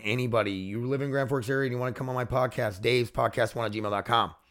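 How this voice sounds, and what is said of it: Scratchy, hoarse voice. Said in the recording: “I'm getting so scratchy ... It's not helping my voice.”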